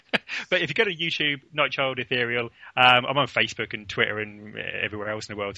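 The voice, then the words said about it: English accent. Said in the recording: “that English accent drives me spare... I can't really change my accent”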